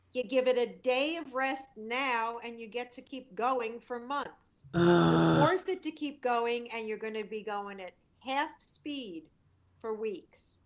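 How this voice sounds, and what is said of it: Scolding motherly voice. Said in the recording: “Don't make me put on my mother hat. ... You made me put on the voice.”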